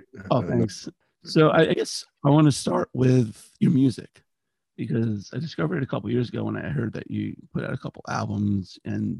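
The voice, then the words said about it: Strained, failing voice. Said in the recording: “I was battling losing my voice during this interview ... I apologize about my voice”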